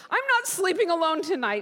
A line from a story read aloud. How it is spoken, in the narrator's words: she cried